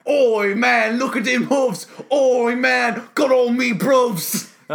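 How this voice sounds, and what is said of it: Put-on British accent, rapping. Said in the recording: “I love the British accent for rap”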